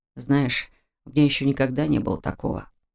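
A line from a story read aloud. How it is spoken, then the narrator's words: Quiet confession. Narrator (Russian): тихо признался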